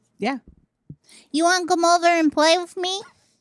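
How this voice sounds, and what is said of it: Child's voice. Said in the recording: “You can do a kid voice right now. ... say something in the kid voice”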